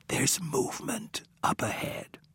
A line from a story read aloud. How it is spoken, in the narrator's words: Wicker, cupping a hand over Coleman's ear, whispered